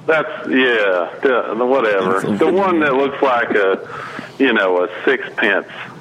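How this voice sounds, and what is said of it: Put-on southern accent. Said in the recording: “I was wondering why you had such a southern accent, sir.”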